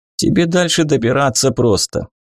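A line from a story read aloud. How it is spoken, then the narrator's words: Head groom chuckling. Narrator (Russian): хохотнул главный конюшей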